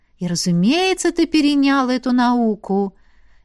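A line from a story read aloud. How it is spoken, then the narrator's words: Cheerful. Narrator (Russian): весело уточнила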